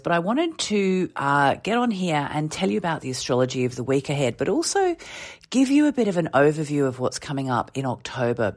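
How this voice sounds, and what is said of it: Voice affected by a cold. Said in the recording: “I have a bit of a cold which went away and has now come back again. So please excuse my voice”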